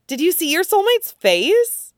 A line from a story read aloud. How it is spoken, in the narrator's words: Weasel asks excitedly